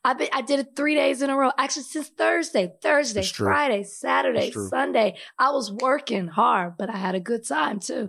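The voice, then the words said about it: Hoarse voice. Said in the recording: “Lack of sleep, drinking, talking all day. That's a combination of I'm going to have a hoarse voice.”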